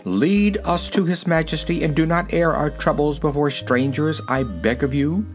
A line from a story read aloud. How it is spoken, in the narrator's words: said the keeper of the wicket sternly